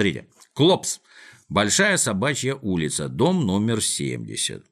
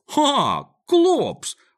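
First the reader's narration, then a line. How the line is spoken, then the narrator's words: Joyful exclamation. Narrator (Russian): воскликнул, обрадовавшись Мига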